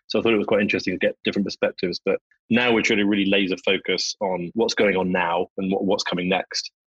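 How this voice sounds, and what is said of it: London English accent. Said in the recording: “Everybody can tell from my accent, I'm not a Native American. And having come over from London”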